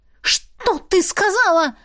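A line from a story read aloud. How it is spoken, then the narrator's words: Shrill squeal. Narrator (Russian): Взвизгнула одна из них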